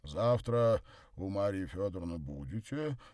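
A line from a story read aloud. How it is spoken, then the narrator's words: Deep bass voice. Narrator (Russian): пробасил Горько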